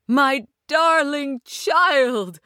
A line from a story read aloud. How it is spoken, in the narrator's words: she cried